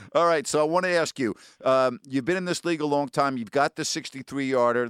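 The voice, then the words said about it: Fast-talking New York accent. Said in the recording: “someone like me with a New York accent who talks fast”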